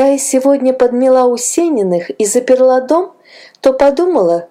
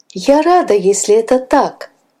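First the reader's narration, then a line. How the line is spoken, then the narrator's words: Young woman's relieved sigh. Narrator (Russian): вздохнула девушка облегченно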